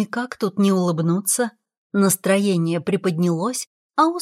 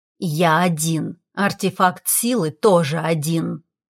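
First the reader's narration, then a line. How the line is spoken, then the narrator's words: Hissed, dragon. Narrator (Russian): прошипел дракон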